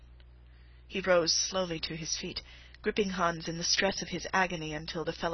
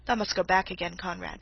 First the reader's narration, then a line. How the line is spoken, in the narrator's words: said Master Nicholas